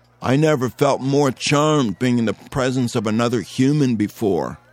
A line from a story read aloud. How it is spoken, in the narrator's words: Lou said